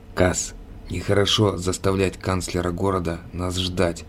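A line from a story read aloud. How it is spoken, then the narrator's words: Quiet, fox. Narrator (Russian): тихо сказал лис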